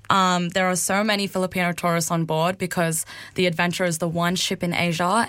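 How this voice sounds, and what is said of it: Australian accent. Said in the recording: “I'm from Australia and my accent is so, I guess, will catch people off guard”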